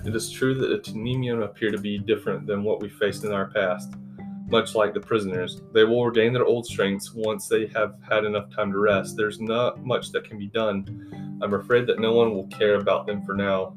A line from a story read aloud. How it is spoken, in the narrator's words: Derek said